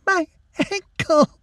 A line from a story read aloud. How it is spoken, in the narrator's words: she sobbed